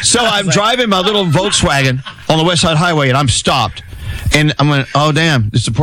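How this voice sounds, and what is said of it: Usual voice. Nothing is said of it.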